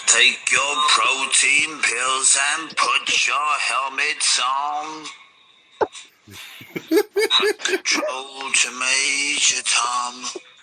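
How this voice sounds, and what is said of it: Dodgy action-man voice. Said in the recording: “I sounded like a dodgy action man”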